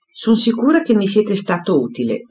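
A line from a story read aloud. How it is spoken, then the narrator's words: Exclaimed. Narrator (Italian): esclamò Emma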